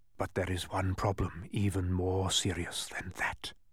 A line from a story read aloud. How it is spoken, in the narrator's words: whispered ominously